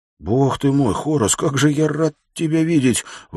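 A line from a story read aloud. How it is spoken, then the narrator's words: Exclaiming. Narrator (Russian): воскликнул Уилл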